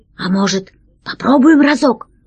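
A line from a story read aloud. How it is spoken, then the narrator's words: Hesitant question. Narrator (Russian): неуверенно спросил весельчак У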